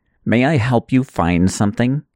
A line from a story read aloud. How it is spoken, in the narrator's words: the woman said coldly